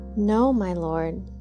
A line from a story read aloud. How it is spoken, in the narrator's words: they exclaimed